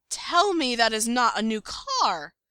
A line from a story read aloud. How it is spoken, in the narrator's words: Styles screeches